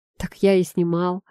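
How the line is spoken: Smirking grunt. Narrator (Russian): хмыкнул Антон

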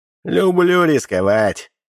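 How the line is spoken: Highborn man's smirking snort. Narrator (Russian): высокородный хмыкнул

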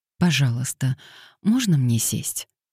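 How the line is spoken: Gently asked. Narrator (Russian): мягко попросила она

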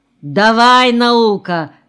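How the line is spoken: Shouted. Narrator (Russian): крикнул он

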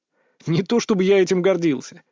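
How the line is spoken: Laughing. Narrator (Russian): рассмеялся

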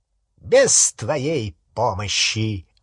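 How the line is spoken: High, clear voice. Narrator (Russian): отозвался Волан-де-Морт высоким, ясным голосом

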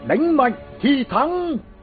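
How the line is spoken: Young king shouting. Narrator (Vietnamese): Vị vua trẻ hét lớn

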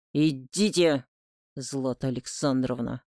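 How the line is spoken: Fierce growl. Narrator (Russian): Рыкнул Олег так, что я даже оступилась

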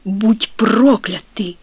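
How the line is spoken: Whispered through teeth. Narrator (Russian): сквозь зубы прошептал он

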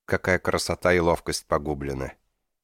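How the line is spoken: Sad. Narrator (Russian): Печально проговорил

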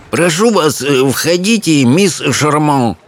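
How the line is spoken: Quavering old voice. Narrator (Russian): произнес он дребезжащим стареньким голоском

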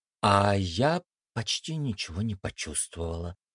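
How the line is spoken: Surprised mutter. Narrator (Russian): удивленно пробормотала Мия

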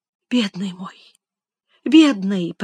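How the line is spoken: Whisper. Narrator (Russian): прошептала Элиза

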